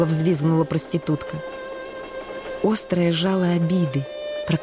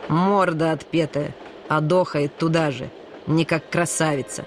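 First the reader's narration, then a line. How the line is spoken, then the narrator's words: Insolent voice. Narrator (Russian): Наглым голосом сообщил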